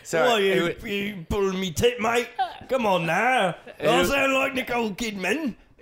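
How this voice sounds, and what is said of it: Australian accent. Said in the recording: “You sound Australian.”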